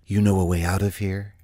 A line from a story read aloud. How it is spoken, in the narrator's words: asked softly